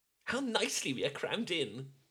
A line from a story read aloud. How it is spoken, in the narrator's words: cried Lydia